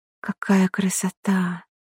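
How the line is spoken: Whispered. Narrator (Russian): прошептала Арина

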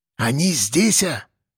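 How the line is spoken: Whisper. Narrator (Russian): прошептал Тулуш

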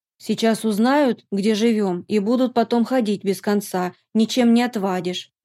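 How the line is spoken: Displeased grumbling. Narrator (Russian): недовольно проворчала прачка

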